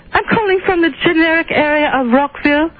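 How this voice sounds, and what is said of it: Phony put-on accent. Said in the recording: “that phony accent you're giving us? ... Why can't you talk in your real voice?”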